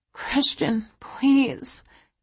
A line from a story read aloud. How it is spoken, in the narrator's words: I whimper